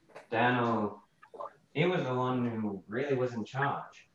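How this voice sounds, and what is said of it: Put-on Australian accent. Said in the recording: “that's more of an Australian accent.”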